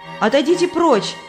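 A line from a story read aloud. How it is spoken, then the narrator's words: Shouted. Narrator (Russian): крикнула Христиана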